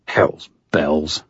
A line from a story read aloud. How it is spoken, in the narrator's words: muttered